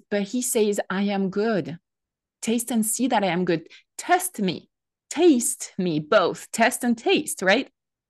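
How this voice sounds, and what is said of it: French accent. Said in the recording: “My French accent probably doesn't render that really well”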